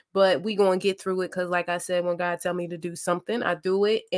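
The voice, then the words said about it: Slightly raspy voice. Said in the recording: “my voice sounds a little bit raspy”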